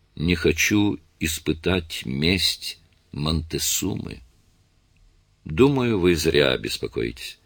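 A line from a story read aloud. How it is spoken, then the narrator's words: Gloomy whisper. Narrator (Russian): миссис Маккей угрюмо прошептала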